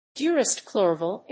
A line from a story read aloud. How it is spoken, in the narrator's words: exclaimed I